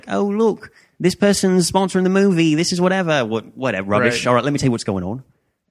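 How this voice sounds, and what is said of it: Poor put-on English accent, slightly Australian. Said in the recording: “That's just a poor English accent ... That had a little Australian mix in there at the end.”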